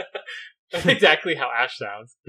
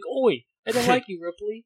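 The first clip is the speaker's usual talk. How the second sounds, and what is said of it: Poor put-on British accent. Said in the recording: “You don't even sound British. It's a terrible British accent.”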